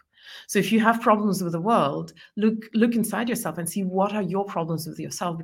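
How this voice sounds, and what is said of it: Mixed, hard-to-place foreign accent. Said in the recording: “you have a marvelous accent ... my accent is a little complicated to understand, because I don't have a very clear one or the other accent”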